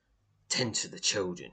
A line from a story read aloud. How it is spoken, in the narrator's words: snaps